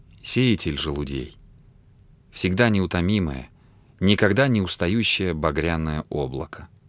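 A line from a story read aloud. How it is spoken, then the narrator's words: Very soft. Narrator (Russian): сказала очень мягко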